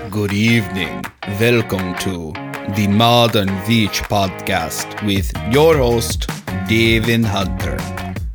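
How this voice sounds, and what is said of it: Dracula-style vampire voice. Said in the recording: “That was my Dracula impersonation.”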